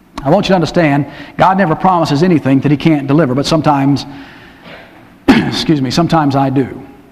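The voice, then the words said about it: Strained, scratchy, failing voice. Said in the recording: “y'all can hear that my voice is going ... my voice gets scratchy”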